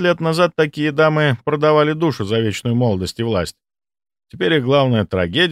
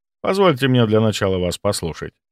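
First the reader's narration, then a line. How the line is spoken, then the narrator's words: Friendly tone. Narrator (Russian): дружелюбным тоном сказал я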